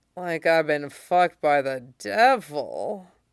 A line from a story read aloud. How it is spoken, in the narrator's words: slurs happily